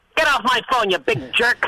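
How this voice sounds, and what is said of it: Imitates another person's voice. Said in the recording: “I do a pretty good imitation of your uh, get off the phone bit ... Not bad. sound it, like Han- you sound like Hannity uh, uh, doing doing my.”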